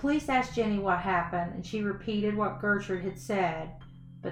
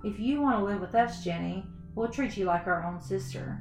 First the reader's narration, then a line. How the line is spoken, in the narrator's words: Paula calmly stated